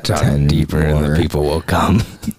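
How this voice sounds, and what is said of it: Deliberately low, deep voice. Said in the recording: “Both of you guys just staring at me with your low voices.”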